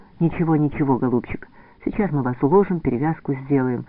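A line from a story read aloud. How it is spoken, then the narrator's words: Gentle soothing voice. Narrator (Russian): мягко говорит старшая сестра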